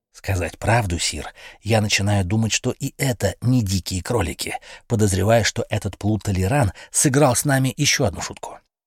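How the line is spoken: Whisper. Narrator (Russian): тот же приближенный и шепнул

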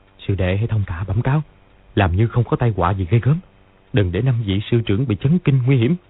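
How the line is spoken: Quiet instruction. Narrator (Vietnamese): Lý Chí Tường dặn khẽ

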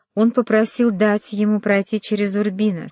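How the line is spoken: Plain. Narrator (Russian): сказала Лукреция

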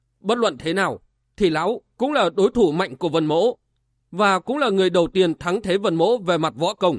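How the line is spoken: Harsh, strained voice. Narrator (Vietnamese): Vân Giật Long gằn giọng

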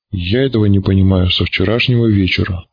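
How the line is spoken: Grumbling mutter. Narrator (Russian): пробурчал Патогеныч

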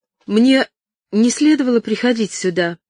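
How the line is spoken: Sudden involuntary exclamation. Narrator (Russian): воскликнула она неожиданно для себя

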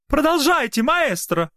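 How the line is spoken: Encouraging shout, gray-haired lady. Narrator (Russian): одобряюще крикнула седая дама

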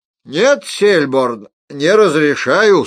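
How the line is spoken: Loud theatrical. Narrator (Russian): сказал он громко, не сдержав актерского пафоса и в тоне

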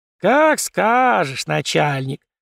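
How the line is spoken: Singsong drawl. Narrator (Russian): нараспев протянул Митрич

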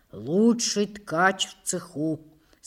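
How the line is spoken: Plain. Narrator (Russian): сказал он матери

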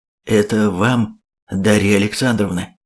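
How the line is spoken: Suddenly hoarse voice. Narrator (Russian): внезапно охрипшим голосом произношу

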